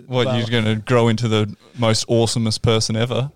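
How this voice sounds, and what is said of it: Unserious, laughing delivery. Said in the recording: “I couldn't can even say it with a serious voice.”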